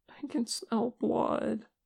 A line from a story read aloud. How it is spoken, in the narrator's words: Che whimpered